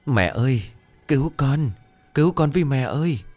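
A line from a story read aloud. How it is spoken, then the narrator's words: Weak sobbing child. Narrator (Vietnamese): Từ dưới cái hố đen ngòm đó, một tiếng rên rỉ yếu ớt, một tiếng khóc thút thít của một đứa trẻ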